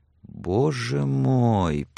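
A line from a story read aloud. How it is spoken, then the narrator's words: Whisper. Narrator (Russian): прошептала Сексон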